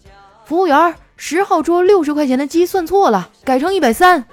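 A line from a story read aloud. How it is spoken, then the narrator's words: Shouting. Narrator (Chinese): 回头喊了一嗓子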